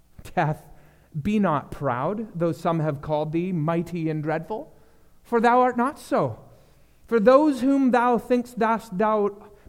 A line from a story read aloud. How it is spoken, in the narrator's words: Donne scoffed